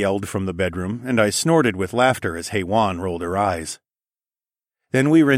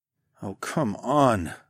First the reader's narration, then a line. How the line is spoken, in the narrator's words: I groaned